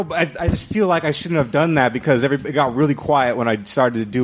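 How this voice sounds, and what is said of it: Usual voice. Nothing is said of it.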